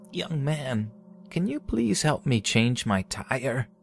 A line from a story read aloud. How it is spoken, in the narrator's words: In an old cracking voice, she said